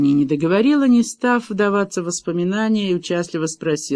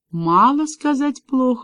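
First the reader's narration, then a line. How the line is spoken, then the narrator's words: Answered gloomily. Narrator (Russian): уныло ответила Меган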